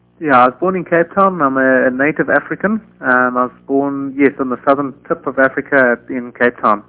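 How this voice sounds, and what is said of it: South African accent. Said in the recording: “your accent is so familiar to me, having lived and taught there”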